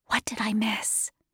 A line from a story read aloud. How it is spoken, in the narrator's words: I whispered